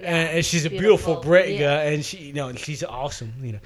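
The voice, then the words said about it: Put-on British accent. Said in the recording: “I'll quit that accent.”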